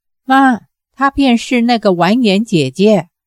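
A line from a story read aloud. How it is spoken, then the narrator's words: Startled exclamation. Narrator (Chinese): 郭福惊叫一声，向母亲说道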